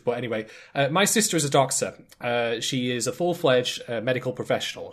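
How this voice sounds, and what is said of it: British accent. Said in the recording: “I'm in Britain ... such as my accent”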